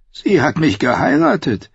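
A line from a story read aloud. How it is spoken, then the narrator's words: Croaked. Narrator (German): krächzte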